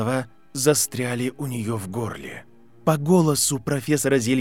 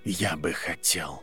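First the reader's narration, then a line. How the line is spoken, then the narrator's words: Barely audible. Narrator (Russian): произнес Северус Снейп так тихо, что она едва могла слышать его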